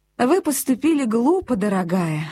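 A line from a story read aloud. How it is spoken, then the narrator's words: Gentle, affectionate. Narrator (Russian): ласково сказала Хэтти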